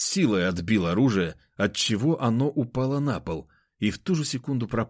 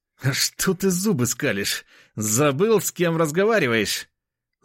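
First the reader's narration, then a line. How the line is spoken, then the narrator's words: Angrily forced out. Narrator (Russian): Зло выдавил он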